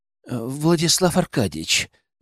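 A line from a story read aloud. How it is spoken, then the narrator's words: Trembling call. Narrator (Russian): дрожащим голосом позвал официант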